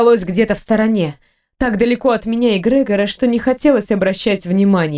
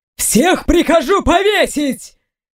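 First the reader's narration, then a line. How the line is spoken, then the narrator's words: Shouting. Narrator (Russian): кричал император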